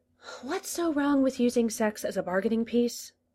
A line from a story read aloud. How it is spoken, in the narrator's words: He sighed